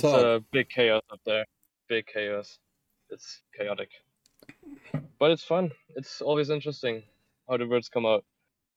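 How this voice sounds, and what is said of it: American accent with German, Australian traces. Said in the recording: “he kind of talks like us, and he has a little German thing going on, and he's starting to develop a little Aussie thing, too”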